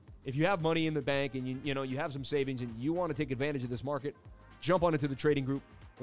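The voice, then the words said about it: Boston accent. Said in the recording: “it's honestly not as hot as you think it is with the Boston accent”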